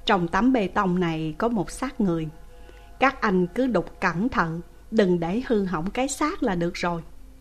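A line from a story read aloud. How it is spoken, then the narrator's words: Gentle. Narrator (Vietnamese): Chi đội trưởng nhẹ nhàng nói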